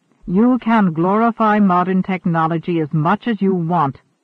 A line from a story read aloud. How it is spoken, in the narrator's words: Wanderer growled